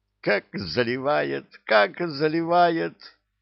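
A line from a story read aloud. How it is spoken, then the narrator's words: Imp's giggle in ear. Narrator (Russian): хихикнул на ухо Зыргу бесенок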